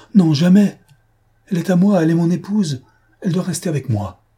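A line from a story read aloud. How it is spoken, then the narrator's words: Loud exclamation. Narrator (French): Il s'écria fortement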